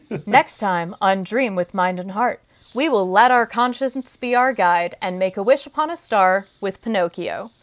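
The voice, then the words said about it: Newscaster radio voice. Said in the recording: “put on my newscaster radio voice.”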